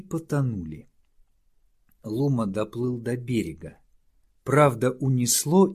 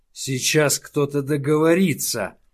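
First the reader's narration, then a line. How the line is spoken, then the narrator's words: Snapping retort. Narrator (Russian): огрызнулся Лума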